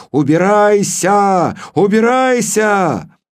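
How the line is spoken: Screaming. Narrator (Russian): я завопил

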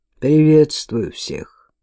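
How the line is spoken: Flat, impassive voice. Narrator (Russian): Бесстрастным голосом говорит

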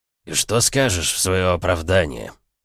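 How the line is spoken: Stern question, trembling voice. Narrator (Russian): Грозно, но с предательски подрагивающей губой вопросила

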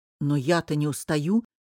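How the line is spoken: Angry. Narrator (Russian): сердито сказал Линар

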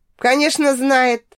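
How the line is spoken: Smirking snort. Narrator (Russian): хмыкнула я

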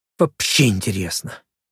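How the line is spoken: Gloomy repetition. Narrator (Russian): мрачно повторила Райка

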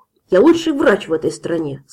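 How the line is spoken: Angry. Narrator (Russian): сказал, сердито

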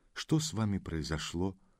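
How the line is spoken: Gentle question. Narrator (Russian): Ласково спросил он

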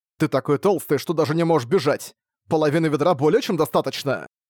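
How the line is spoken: Angry reply. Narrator (Russian): Сердито ответил Цаньмо

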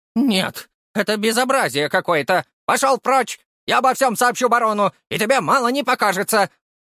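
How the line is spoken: Teacher shouting angrily. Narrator (Russian): закричала учительница

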